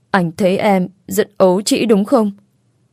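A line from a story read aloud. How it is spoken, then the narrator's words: Hesitant question. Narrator (Vietnamese): Cô ấp úng hỏi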